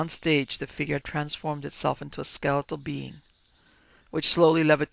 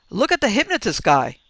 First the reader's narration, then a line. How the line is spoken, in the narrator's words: someone shouted